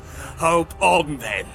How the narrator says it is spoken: laughed Denethor

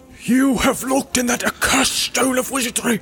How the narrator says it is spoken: exclaimed Gimli with fear and astonishment in his face

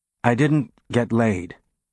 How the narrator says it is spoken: Holden said hesitantly

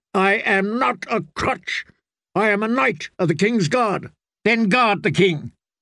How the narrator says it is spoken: Sir John Darry snapped at him

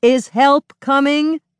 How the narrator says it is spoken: Nick shouts

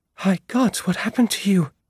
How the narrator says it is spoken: gasped

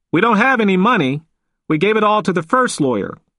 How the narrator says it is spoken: called out one of the men

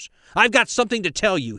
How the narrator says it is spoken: he shouted

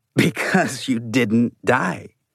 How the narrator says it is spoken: Mose said with a long, wheezing laugh

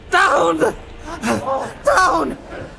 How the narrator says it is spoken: he gasped

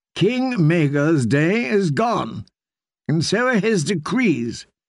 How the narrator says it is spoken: she said firmly

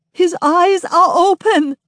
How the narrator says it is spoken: she keeps sobbing

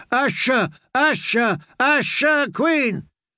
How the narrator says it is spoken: They stamped their feet and shook their fists and yelled

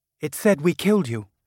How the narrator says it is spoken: she said

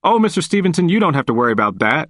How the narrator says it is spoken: he quickly replied

